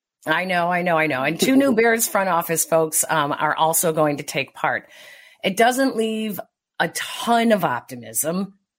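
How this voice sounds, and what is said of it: Very hoarse voice. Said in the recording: “My voice is very hoarse.”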